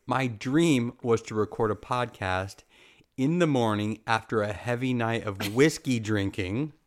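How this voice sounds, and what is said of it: Sniffly, gravelly congested voice. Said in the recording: “I also have like the sniffly nose and the gravelly throat”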